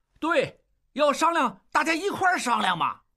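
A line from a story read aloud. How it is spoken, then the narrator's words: Crowd clamoring. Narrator (Chinese): 众人跟着嚷嚷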